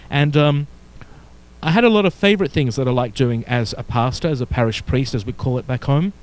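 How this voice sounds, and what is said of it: Australian accent. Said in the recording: “Melbourne, Victoria, Australia, as you can tell by my accent”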